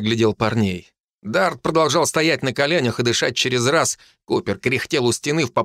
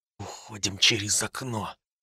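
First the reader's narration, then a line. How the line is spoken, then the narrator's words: Quiet. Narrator (Russian): тихо сказал я им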